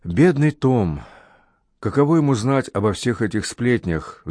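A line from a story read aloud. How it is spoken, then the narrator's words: Sighing. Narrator (Russian): вздохнула Кэт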